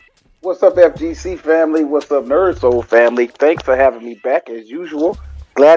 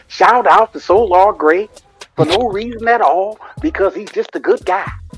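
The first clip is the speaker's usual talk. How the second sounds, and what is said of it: Imitates another person's voice. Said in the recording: “I want to do my best Denzel impression.”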